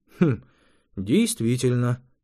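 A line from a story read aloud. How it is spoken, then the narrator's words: Sighing. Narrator (Russian): швед вздохнул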